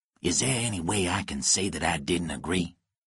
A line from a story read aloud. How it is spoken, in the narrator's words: Lonnie whispered to Nicholas